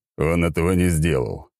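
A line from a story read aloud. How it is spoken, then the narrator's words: Sullen grumble. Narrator (Russian): хмуро проворчал Ротай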